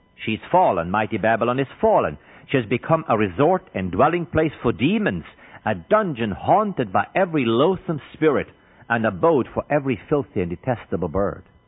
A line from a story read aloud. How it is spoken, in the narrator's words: The fourth angel shouted with a mighty voice